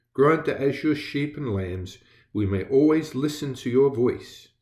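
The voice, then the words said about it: English accent. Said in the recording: “my accent is slightly different. Yes, I did grow up in England.”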